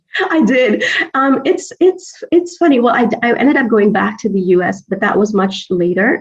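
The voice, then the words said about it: American accent. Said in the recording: “retain an American accent”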